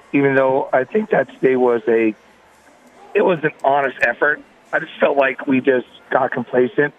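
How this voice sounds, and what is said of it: Rough, impaired voice. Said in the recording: “sorry about my voice”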